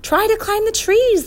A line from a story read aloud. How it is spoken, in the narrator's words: the professor cried